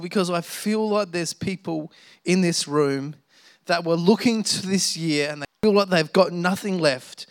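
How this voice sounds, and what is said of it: Emotional, tired speaking voice. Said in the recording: “getting emotional over that? ... I'm very tired. ... But I'm getting emotional”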